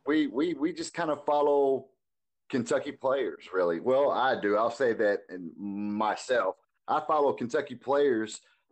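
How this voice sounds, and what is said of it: Polished, professional radio voice. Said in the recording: “this guy sounds so professional already ... He's got that radio voice”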